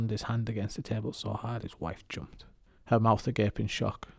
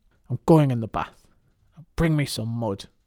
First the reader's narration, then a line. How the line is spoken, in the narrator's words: barked